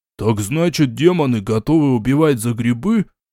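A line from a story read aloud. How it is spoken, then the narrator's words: Surprised groan. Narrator (Russian): удивленно простонал он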